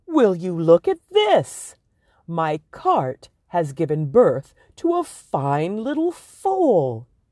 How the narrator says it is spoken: exclaimed

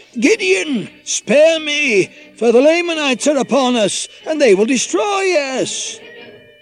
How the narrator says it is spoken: He cried out

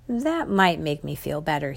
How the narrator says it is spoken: he said

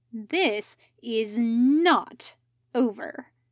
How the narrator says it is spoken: he growled

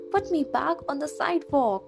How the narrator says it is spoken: I moaned

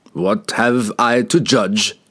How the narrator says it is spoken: Wulfgar asked angrily

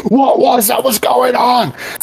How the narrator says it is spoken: the female figure scream

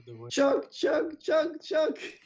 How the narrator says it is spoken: you can hear Morty yell

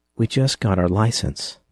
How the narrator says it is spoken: she said quietly

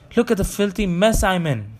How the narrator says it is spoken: Rusty felt for injuries and, finding none, exclaimed

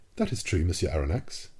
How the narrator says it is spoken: replied the captain

